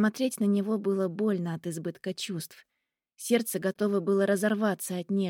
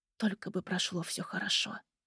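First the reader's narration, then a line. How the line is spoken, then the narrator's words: Whispering. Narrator (Russian): шептал он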